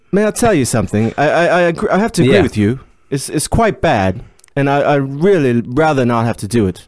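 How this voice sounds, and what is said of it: Awful put-on accent. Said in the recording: “That is an awful accent.”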